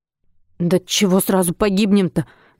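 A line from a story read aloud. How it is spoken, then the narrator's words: Nervous, forced out. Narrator (Russian): Нервно выдавил Васнецов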